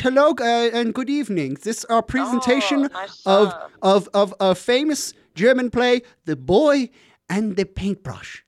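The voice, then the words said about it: Throaty put-on German accent. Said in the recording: “the accent, by the way, was just great... My key for German accents is... I like to swallow my German voice... now it's down in your throat a little”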